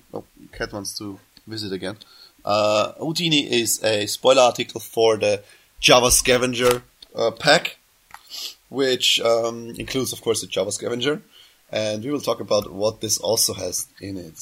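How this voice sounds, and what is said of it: Sick, strained throat voice. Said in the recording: “I can't do my high voice today because I'm still throat sick”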